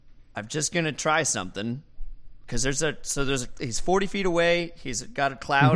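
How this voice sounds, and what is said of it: Usual voice. Nothing is said of it.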